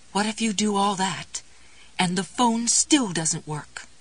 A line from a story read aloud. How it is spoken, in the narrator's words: Goody quavered